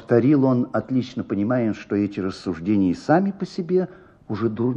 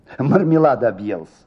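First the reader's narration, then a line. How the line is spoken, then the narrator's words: Said, then laughing. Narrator (Russian): сказала она и засмеялась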